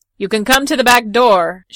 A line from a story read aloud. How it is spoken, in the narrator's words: shouted Pancalo